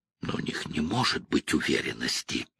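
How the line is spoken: Mumble. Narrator (Russian): пробормотал Пол

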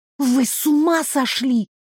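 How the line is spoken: Theatrical indignant whisper. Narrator (Russian): Шепотом, которому могли позавидовать завзятые театралы, возмутилась я

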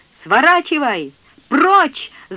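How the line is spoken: Full-force yell. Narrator (Russian): заорал ему Клейтон изо всех сил

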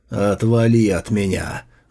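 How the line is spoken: Furious growl near death. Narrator (Russian): Находясь на волоске от смерти, Сун Фэй яростно зарычал

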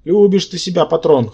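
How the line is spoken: Snorting. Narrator (Russian): хмыкнул Рабан

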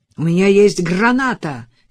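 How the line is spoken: Shout. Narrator (Russian): крикнул Адам

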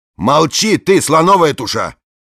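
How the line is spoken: Shaking with laughter. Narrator (Russian): Она продолжала хохотать и трястись

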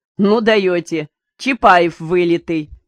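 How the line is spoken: Laughing. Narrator (Russian): рассмеялся начальник станции

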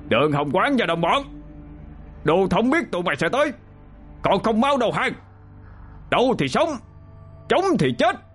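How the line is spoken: Loud shout. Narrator (Vietnamese): Một tên kỵ binh dẫn đầu quát lớn

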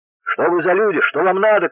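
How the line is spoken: Frightened shouting. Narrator (Russian): кричали перепуганные

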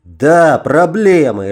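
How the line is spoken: Angry barking. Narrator (Russian): рявкнул я, разозленный больше на себя, чем на кого-либо

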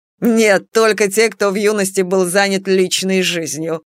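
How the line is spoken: Chuckling. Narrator (Russian): хохотнула Бастина

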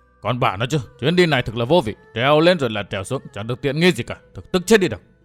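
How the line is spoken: Grumbling mutter. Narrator (Vietnamese): Phong Lôi Thần lẩm bẩm

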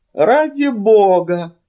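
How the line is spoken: Exclaiming. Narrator (Russian): воскликнул он

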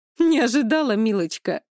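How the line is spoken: Woman laughing loudly. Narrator (Russian): Женщина громко расхохоталась

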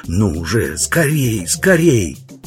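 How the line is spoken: Panicked hiss. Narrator (Russian): Двойник был в такой панике, что не понимал этого, а только шипел

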